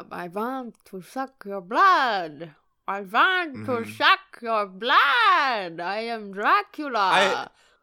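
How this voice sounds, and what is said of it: Dracula-style vampire voice. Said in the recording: “do a vampire voice ... in your vampire voice”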